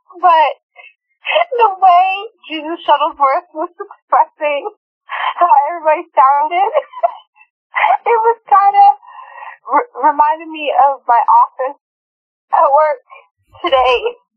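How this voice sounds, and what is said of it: Sick voice with a cold. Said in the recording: “I'm sick. I have a little bit of a cold,”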